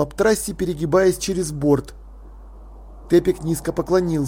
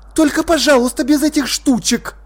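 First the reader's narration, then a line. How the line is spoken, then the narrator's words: Sharp command. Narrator (Russian): резко приказала Птрасси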